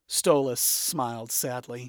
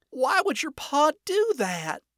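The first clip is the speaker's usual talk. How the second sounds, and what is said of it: Sad Southern drawl. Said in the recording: “a note of sadness in her southern drawl”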